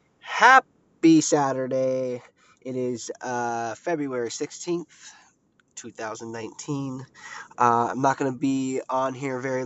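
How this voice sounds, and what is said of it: Sounds sick. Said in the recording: “I sound a little sick”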